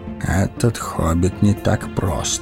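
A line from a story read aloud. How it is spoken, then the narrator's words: Mutter. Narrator (Russian): пробормотал Гэндальф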